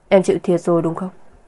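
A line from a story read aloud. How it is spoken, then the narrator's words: Gentle question. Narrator (Vietnamese): anh nhẹ nhàng hỏi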